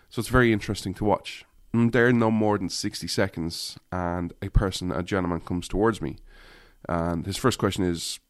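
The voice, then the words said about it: Irish accent. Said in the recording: “my accent sticks out. My accent sticks out everywhere. ... did you come from Ireland? Like, absolutely.”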